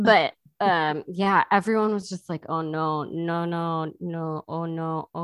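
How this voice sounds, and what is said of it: Usual voice. Nothing is said of it.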